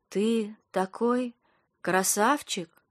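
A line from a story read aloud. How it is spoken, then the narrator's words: Slow breathy whisper. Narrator (Russian): медленно выдохнула она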